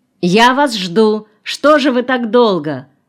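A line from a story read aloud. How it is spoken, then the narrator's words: Laughing, singsong shout. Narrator (Russian): Лёля, смеясь и напевая, крикнула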